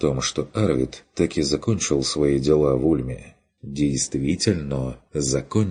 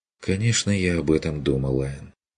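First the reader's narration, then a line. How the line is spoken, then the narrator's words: Quiet reply. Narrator (Russian): отозвалась она тихо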